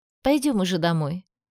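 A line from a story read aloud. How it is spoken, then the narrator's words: Calm. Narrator (Russian): спокойно произнесла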